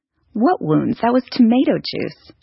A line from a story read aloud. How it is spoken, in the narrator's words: she laughed indignantly